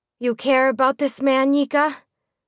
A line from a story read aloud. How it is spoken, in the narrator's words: Mimi asked in a defeated tone